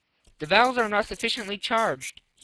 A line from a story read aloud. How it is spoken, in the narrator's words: he exclaimed